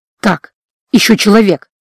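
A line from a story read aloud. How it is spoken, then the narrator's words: Relieved exhale. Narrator (Russian): С облегчением выдохнул он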